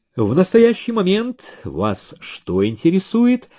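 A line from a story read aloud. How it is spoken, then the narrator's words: Light questioning tone. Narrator (Russian): легким тоном спросил Ерчук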